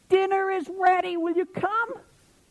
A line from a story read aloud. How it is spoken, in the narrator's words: she screamed out for the fourth time